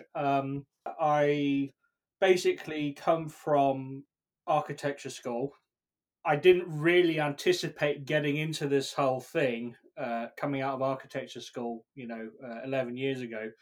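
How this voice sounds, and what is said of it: British accent. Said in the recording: “probably tell by my accent, I'm British.”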